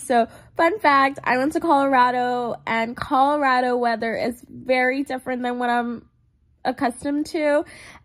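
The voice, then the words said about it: Congested voice. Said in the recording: “I sound a little congested, a little different... my allergies have been so crazy... coughing even a little and just like runny nose”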